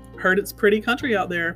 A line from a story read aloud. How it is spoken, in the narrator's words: Papa said